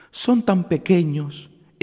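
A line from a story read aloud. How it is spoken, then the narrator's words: Woman crying out, weeping. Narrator (Spanish): exclamó la mujer del leñador llorando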